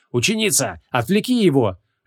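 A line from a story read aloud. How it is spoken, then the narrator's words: Barked command. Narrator (Russian): рявкнул Креол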